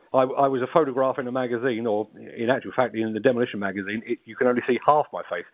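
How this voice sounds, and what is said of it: South London accent. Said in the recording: “a South London accent”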